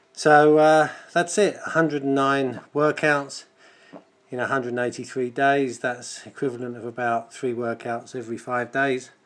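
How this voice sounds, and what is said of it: Out of breath, panting speech. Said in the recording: “As you can probably hear, I'm still a bit out of breath.”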